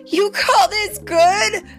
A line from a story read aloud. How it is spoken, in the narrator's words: Kai shouted